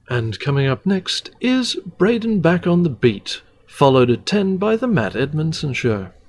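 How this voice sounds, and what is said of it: Plummy BBC announcer accent. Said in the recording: “I can't do the voice as well as I used to because I am very out of practice. But I did have to learn that plummy kind of, welcome to the BBC accent.”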